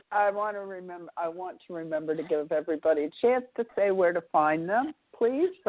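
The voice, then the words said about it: Congested voice with a cold. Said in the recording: “I'm basically a little bit sick. I've got a bad cold.”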